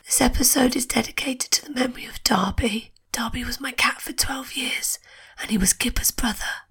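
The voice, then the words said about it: Voice mostly lost, strained. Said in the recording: “lost my voice”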